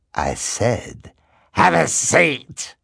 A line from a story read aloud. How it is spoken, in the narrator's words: The hook-handed man snarled